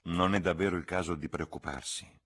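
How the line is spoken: Plain. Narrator (Italian): disse

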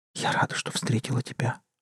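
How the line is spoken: Whisper. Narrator (Russian): прошептала Полина

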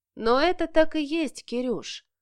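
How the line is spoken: Gentle, affectionate. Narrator (Russian): ласково добавил

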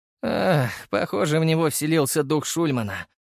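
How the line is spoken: Sigh. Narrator (Russian): вздохнул Макар

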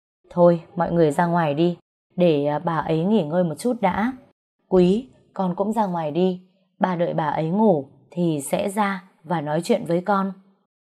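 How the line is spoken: Sighing. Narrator (Vietnamese): Bà Dượng thở dài nói

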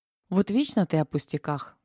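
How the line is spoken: Capricious tone. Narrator (Russian): Уже привычно капризным тоном ответил он

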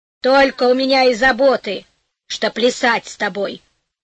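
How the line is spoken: Angry old woman. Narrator (Russian): сердито ответила старуха

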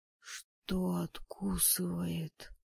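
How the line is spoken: Hoarse frightened faint squeak. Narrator (Russian): Сиплым от испуга голосом чуть слышно пискнул блондин

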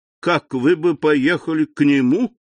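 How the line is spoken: Laughing. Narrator (Russian): сказал, смеясь Дебре

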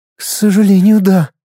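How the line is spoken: Doomed, pained sigh. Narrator (Russian): обреченно вздохнула принцесса, с болью

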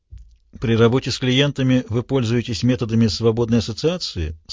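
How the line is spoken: Dry question. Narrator (Russian): сухо спросил его Пендергаст

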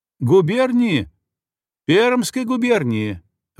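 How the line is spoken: Shouted. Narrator (Russian): выкрикнул он

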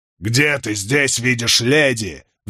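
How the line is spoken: Roared. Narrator (Russian): взревел Чаури

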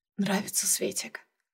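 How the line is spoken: Whisper. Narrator (Russian): шепнул он

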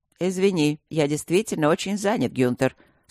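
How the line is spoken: Calm. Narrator (Russian): спокойно ответил Луциус

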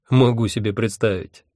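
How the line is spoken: Wry grunt. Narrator (Russian): хмыкнул Хехельф

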